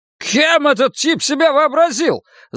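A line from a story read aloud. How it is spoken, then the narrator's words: Yelled. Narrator (Russian): заорал Кирк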